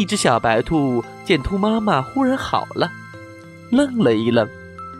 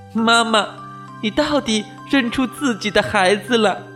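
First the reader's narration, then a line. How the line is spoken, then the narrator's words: Laughing. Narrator (Chinese): 小白兔笑了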